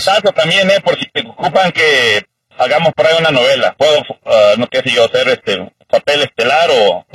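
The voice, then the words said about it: Deep, resonant radio-announcer voice. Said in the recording (Spanish): “El tío tiene tremenda voz de locutor ... Sí, tiene voz de locutor ... No, tremenda voz, tiene el tío.”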